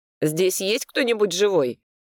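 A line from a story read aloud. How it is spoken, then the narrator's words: Irritated question. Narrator (Russian): раздраженно спросил я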